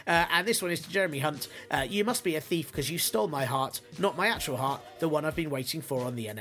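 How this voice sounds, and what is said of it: Usual voice. Nothing is said of it.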